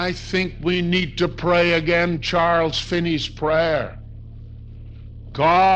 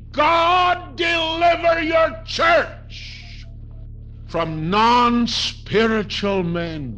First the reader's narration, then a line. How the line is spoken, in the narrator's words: Charles Finney cried